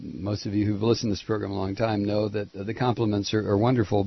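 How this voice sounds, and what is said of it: Scratchy, hoarse voice. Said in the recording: “losing my voice, ... the pollen count here in Atlanta ... that's why you hear the scratchy voice.”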